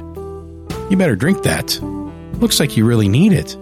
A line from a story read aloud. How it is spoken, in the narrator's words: chuckled again, and said